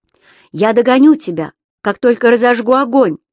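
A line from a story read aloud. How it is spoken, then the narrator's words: Shouted after her. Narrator (Russian): крикнул ей вслед Бирк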